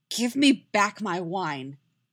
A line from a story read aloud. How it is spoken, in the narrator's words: Yennefer snarls